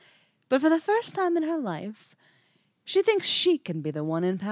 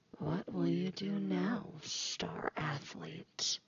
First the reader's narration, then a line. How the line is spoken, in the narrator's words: She whispers to him, but her voice is not her own